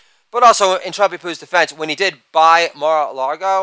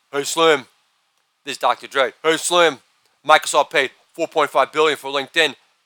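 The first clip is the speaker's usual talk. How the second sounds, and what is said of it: Imitates another person's voice. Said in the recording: “this is an impersonation of Eminem discussing merger talk, LinkedIn, and Microsoft with Dr. Dre”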